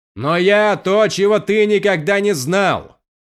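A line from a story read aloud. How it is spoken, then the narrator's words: Shout. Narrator (Russian): крикнул Каладин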